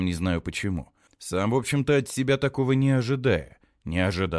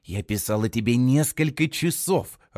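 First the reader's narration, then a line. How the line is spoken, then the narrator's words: Irritated hiss. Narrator (Russian): раздраженно шипела она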